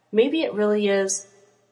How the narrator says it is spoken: his partner hesitantly said

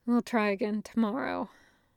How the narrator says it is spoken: Zuko sighing, saying

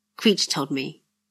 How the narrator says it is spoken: he said quietly

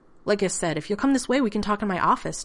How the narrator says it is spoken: John said quickly

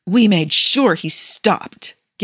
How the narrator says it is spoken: Gabby all but growled

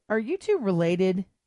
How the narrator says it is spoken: asked Xena, chuckling

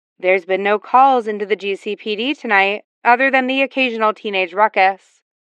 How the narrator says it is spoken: Barbara spoke evenly

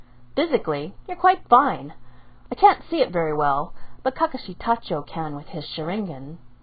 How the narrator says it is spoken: Hiramasa said cheerfully

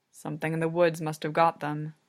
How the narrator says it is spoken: Samuli mutters

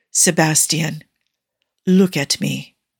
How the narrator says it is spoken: he murmurs

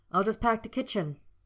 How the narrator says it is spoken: Harry snapped

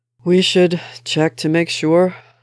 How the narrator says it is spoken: Steve sighed

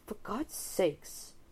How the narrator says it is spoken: Holmes mutters desperately

